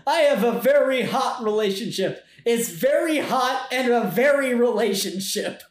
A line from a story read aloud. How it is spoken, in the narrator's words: she shouts